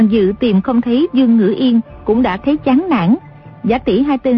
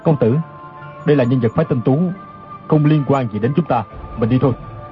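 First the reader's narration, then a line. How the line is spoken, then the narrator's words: Low voice. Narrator (Vietnamese): Chu Đăng Thần hạ giọng nói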